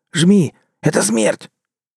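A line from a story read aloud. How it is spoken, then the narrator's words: Hoarse wheeze. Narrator (Russian): Гусляр прохрипел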